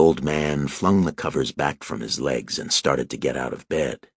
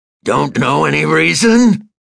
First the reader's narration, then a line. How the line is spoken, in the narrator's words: he was bellowing again